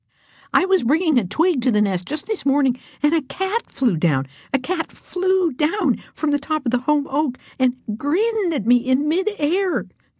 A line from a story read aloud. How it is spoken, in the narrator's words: the thrush said